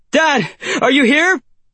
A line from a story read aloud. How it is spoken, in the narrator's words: He shouts into the empty night